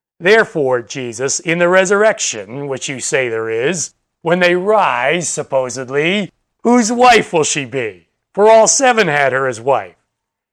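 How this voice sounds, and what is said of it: Very sarcastic tone. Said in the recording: “in a very sarcastic voice”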